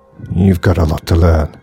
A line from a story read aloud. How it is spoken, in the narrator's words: grunted Boris